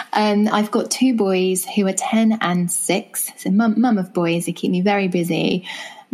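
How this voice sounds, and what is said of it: English accent. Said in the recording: “as you can tell from my accent, I'm from England.”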